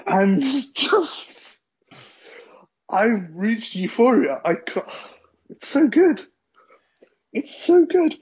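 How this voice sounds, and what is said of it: Cracking, emotional voice near tears. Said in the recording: “My voice is cracking. I might cry.”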